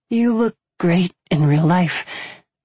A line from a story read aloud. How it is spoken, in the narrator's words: she breathed out